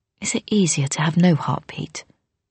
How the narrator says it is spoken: asked softly

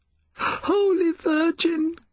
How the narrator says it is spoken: cried she

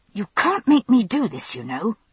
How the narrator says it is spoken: hissed threateningly at Murta's back

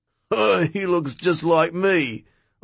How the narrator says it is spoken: Ozzy said, laughing

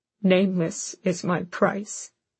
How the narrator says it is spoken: Aelin said, her voice breaking

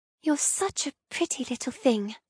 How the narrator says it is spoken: whisper

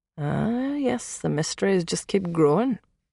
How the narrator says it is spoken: he murmured

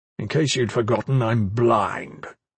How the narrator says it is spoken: Andros said bitterly

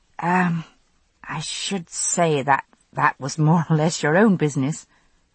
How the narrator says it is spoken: I murmured

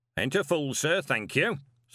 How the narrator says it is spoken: said Pony sharply

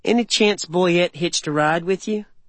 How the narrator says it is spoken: Another chuckle

